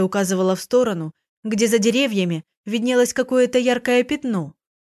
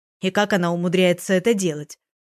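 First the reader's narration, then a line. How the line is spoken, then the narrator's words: Grumbling. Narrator (Russian): проворчала Светлана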